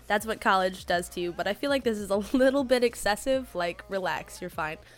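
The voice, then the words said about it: Sick-sounding voice. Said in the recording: “I need to apologize for my voice. I have been sick for like 2 months straight.”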